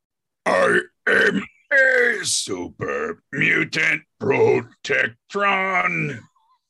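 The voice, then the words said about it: Super mutant Protectron impression. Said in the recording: “do an impression of a super mutant Protectron”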